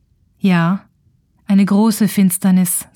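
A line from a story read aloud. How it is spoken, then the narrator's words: Plain, after hesitation. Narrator (German): sagte er schließlich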